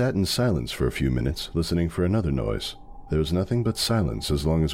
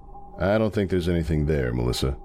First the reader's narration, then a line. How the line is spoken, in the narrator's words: I said